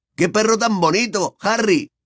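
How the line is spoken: Boy shouting. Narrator (Spanish): gritó un muchacho

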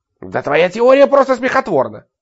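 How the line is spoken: Scoffing snort. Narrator (Russian): фыркнул Ларри

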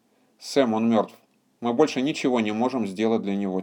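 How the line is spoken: Quiet. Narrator (Russian): тихо сказала она

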